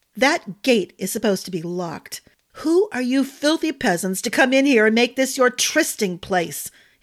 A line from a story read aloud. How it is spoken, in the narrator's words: ended on a roar